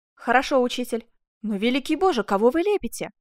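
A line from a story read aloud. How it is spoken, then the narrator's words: Interrupted male exclamation. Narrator (Russian): воскликнул Асканио, прерывая себя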